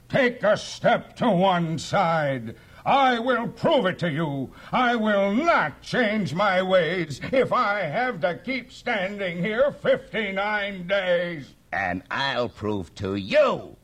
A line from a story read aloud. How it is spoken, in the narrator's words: yelled the south-going Zax